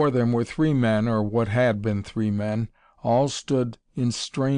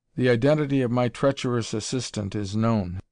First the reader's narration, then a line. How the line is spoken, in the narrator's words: he said grimly